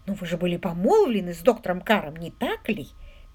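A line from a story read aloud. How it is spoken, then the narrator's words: Soft. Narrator (Russian): мягко произнес лорд Уимзи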